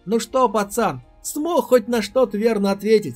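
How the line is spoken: Laughing question. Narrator (Russian): смеясь спросил тот самый парень, который смог пройти первый этап экзамена

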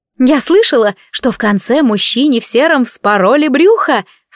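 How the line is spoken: Excited exclamation. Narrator (Russian): с азартным блеском в глазах воскликнула Патрис

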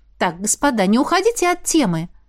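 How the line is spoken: Exclaimed. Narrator (Russian): Воскликнула

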